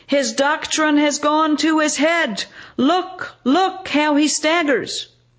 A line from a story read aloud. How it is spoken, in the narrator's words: the people shout